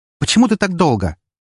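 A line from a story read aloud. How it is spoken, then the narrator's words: Barking. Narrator (Russian): рявкнула Эри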